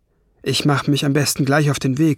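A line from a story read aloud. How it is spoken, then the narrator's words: Plain. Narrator (German): sagte er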